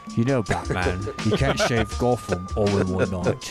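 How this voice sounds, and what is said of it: Put-on British accent impression. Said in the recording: “I like when you do your Michael Caine. That's the best British accent that you have.”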